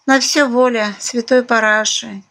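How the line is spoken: Heavy sigh. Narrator (Russian): тяжело вздохнула Наталья

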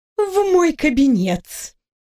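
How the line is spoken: Sweet cooing. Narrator (Russian): мило проворковала третий архимаг

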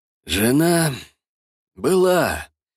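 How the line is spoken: Sighing. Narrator (Russian): вздохнул Владислав

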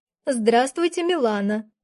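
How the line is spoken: Calm, hiding glee. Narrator (Russian): спокойно ответила я, хотя внутри уже ликовала

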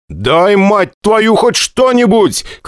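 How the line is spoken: Shout. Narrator (Russian): крикнул я

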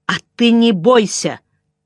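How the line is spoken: Angry. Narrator (Russian): сказала сердито

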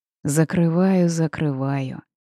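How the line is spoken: Deep bass voice. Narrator (Russian): Пробасил огромный оборотень

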